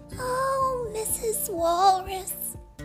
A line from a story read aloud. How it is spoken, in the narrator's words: he cried